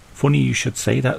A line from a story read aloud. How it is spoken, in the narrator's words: said the councillor